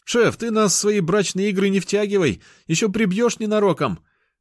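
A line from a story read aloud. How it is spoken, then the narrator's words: Soldiers shouting. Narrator (Russian): Бойцы выкрикнули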